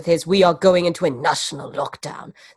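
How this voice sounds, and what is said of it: Imitates another person's voice. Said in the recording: “That's my Boris impression.”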